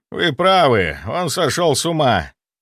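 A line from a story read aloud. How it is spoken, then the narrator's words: Breathless healer. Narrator (Russian): Выдохнул лекарь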